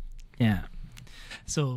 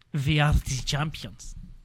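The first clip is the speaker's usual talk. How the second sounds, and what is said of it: Put-on German accent. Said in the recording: “Say with a German accent for me.”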